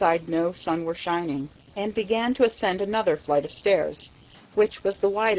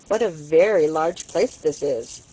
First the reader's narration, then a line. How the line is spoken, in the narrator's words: she said in an insinuating voice